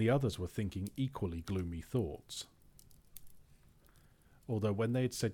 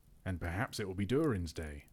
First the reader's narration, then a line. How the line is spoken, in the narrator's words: said